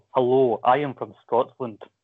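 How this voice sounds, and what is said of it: Drew's Scottish accent impression. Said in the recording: “would you like me to do a more elegant Scottish accent, or would you like me to do the Drew accent?”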